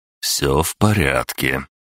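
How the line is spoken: Soft speech. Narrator (Russian): мягко проговорил

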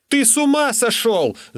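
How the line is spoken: Shouted. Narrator (Russian): закричал я

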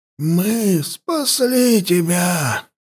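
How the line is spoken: Old man's wheeze. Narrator (Russian): прохрипел старик

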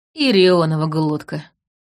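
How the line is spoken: Grim. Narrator (Russian): мрачно произнес Дим

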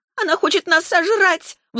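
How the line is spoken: Frightened shriek. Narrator (Russian): взвизгнула Варна

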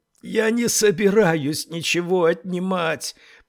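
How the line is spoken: Hoarse. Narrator (Russian): прохрипела Тесла

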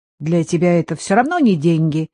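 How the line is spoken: Snapping retort. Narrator (Russian): огрызнулась Татьяна

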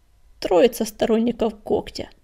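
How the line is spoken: Muttering. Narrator (Russian): пробормотал Буран

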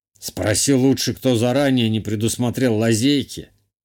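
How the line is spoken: Smirking snort. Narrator (Russian): хмыкнул герцог

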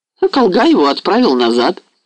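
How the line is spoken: Calm. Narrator (Russian): продолжал спокойно Полей

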